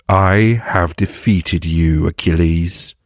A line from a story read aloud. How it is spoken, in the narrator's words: Hector declared, his voice filled with triumph